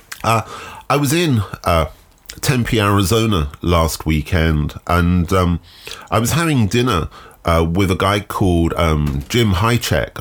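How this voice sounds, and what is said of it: Deeper, nasal, congested voice. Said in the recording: “my voice is slightly deeper this week, and indeed slightly more nasally. It is a result of man flu”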